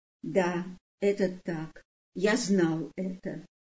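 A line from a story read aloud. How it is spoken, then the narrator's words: Quiet answer. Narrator (Russian): Иосиф тихо ответил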